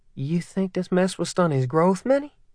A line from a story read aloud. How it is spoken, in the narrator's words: Manyara laughed